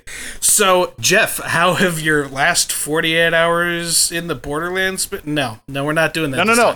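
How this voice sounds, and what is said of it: Stuffy, congested voice. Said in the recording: “I'm struggling with allergies, so forgive me if I sound a little stuffy ... He's got a hay fever.”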